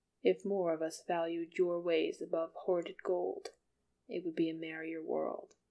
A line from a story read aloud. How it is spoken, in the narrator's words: he said quietly